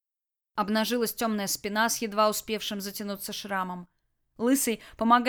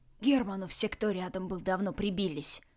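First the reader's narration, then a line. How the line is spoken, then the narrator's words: Hoarse rasp. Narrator (Russian): прохрипел Ред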